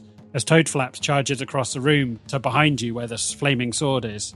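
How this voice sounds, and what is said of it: Usual voice. Nothing is said of it.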